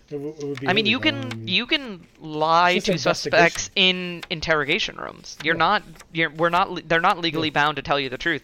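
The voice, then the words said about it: American accent. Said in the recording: “we're saying this from a United States perspective. If you can't tell by our accents”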